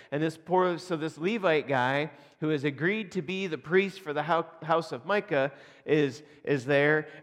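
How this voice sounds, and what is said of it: Northern accent, slight Southern drawl, drawn-out vowels. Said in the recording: “I've picked up a little bit of a southern draw ... I'm like a Yankee with a hint of a southern drawl, but I still drag out my vowels the way that the Canadians do. So I've created my own accent”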